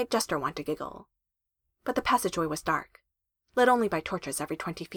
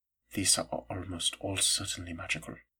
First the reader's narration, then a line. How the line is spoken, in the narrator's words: he murmured